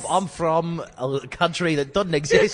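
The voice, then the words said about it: Mixed, unplaceable put-on accent. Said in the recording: “King of Accents... where were you aiming for?... I'm from England, Zealand... South Africa. Canada-ish... you're the king of accents”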